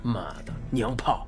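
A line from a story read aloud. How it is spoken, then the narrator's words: Low muttered curse. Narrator (Chinese): 大巴低声咒骂道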